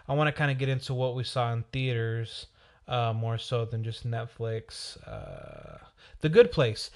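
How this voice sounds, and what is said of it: Slightly raspy, sick-sounding voice. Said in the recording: “my voice is a little raspy. I'm kind of sick.”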